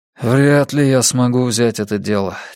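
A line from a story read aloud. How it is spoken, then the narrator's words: Heavy sigh. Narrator (Russian): тяжело вздохнул Йона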